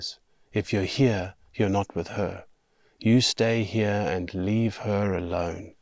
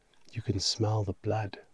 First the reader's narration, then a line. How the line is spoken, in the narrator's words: he mutters